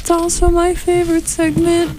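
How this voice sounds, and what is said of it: Distant, off-mic sounding voice. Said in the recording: “What was that voice? ... That was my "I'm far away from the microphone" voice.”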